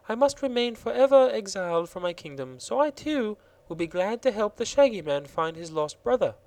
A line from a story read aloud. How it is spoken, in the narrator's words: said Princess Ozga of Roseland with a gentle sigh